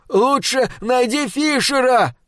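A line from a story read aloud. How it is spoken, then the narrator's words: Shout. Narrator (Russian): крикнул Баррет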